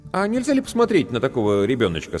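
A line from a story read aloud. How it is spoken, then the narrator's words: Innocent-voiced question. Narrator (Russian): самым невинным голосом спросил я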